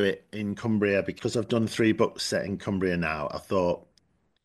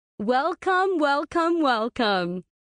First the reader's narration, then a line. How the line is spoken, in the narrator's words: Abby called out